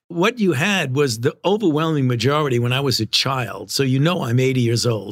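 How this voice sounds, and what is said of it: Brooklyn accent. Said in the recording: “the Brooklyn accent come out.”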